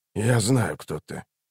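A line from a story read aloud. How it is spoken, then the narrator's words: Quiet stranger. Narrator (Russian): тихо проговорил незнакомец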